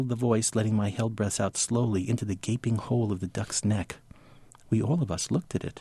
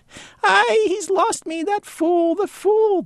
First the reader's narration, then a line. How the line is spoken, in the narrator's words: the bird cackled